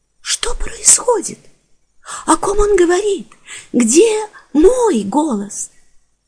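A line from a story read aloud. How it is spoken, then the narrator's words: Young, lively, light voice. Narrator (Russian): Спросила снова юным, оживленным и легким голосом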